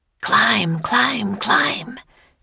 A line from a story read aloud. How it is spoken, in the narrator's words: she whispered from her spot on the ceiling